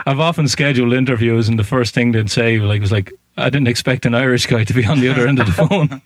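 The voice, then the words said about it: Irish accent. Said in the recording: “I love your accent, by the way. ... When I get an Irish part ... It's a beautiful accent.”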